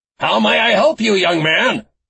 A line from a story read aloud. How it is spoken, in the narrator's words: Herb asked in a booming voice